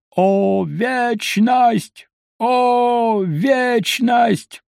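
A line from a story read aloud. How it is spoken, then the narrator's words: Hoarse, very loud voice. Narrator (Russian): У него был хриплый и настолько громкий голос, что брат мой еще долго слышал его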